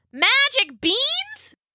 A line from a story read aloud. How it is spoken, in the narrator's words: she just kept yelling